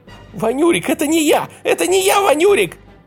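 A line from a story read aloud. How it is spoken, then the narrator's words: Squeaking. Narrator (Russian): пищала Тоська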